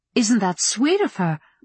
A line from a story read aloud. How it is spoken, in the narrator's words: Mama went on brightly